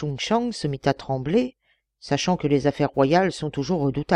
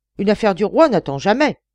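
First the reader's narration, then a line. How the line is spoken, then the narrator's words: Thundering. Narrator (French): tonna Yixing-ho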